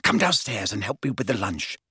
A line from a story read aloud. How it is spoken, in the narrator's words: she whispered